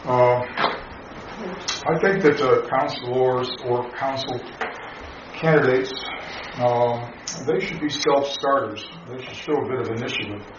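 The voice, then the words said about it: Foreign accent. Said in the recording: “my foreign or funny accent. You know, I wasn't born here.”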